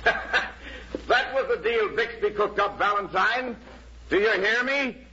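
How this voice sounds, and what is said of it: Raised, loud voice. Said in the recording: “You don't have to raise your voice”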